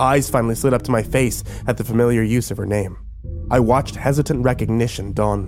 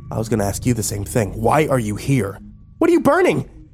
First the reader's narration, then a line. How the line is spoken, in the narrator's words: Her voice had raised to high-pitched hysteria